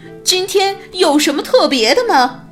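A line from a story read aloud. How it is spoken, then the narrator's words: Shouting. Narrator (Chinese): 老鼠，弗洛格喊道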